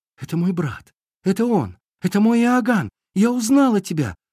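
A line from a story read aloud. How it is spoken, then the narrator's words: Joyful exclamation. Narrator (Russian): воскликнула радостно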